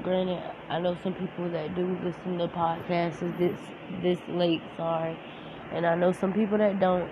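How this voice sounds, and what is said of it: Gravelly, monotone, sick-sounding voice. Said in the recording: “Excuse my voice, because I've been feeling a little sick, a little down ... please excuse my voice if it sounds gravelly or just like disfigured or like monotone”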